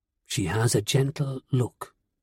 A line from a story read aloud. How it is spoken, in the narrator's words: Teal said quietly